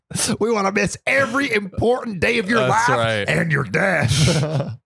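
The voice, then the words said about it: Put-on southern accent. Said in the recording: “I don't know why we're giving them southern accents.”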